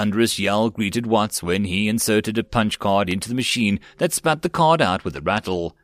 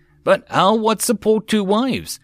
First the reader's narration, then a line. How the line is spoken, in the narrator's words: Watts asked in a pitiful voice